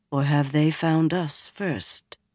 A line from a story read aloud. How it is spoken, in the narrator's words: Nynaeve said softly